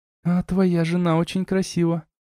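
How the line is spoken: Little sister whispering in ear. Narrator (Russian): прошептала мне ухо сестренка

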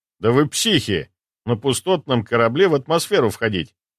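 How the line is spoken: Mutter. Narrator (Russian): пробормотал я

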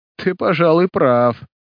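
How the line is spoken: Laughing. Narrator (Russian): засмеялся мнимый Тони Арко

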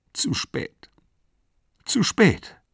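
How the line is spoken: Sobbing. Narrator (German): schluchzte

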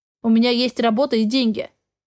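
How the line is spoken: Growling. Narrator (Russian): зарычал

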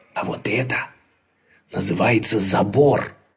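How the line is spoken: Very quiet whisper. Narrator (Russian): тихонечко прошептал Лабан

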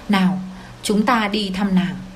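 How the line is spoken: Gentle. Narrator (Vietnamese): tôi nhẹ nhàng nói với cậu ta

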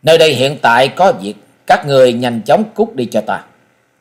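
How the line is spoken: Impatient cold young man. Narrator (Vietnamese): Mỹ thiếu niên sớm đã hết kiên nhẫn, lạnh lùng nói

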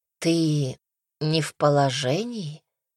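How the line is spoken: Mother's quiet question. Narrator (Russian): Тихий вопрос матушки

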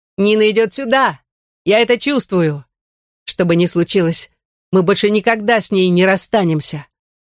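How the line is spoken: Shouting. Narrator (Russian): крикнул

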